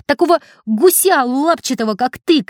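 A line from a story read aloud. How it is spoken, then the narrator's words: Shouting while running. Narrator (Russian): кричал он на бегу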